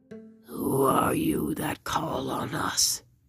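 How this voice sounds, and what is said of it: Gruff character voice. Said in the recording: “in a gruff voice”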